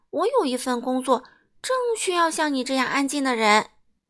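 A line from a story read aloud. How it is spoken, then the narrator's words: Laughing. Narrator (Chinese): 快乐先生笑了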